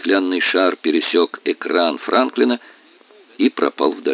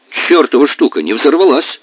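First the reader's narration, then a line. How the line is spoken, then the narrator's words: Shouting. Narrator (Russian): крикнул он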